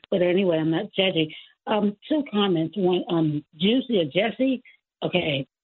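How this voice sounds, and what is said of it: Hoarse voice. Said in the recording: “I'm a little hoarse because I was laughing at some calls”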